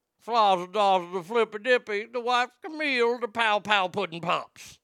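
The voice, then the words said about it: Deliberately bad Bill Cosby impression. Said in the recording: “my terrible impersonations, and look, they, they weren't that good ... But I loved doing Cosby ... That was pretty much the extent of the entire impersonation.”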